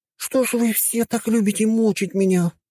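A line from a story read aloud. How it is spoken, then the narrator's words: Moaning. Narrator (Russian): простонала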